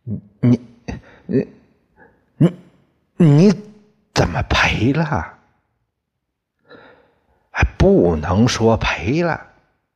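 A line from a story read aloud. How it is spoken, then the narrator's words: Frightened stammering. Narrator (Chinese): 小关剪刀和于把牙吓出了满头的冷汗，两个人惊慌的 结结巴巴的说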